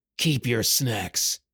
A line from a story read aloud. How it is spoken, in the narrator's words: he growled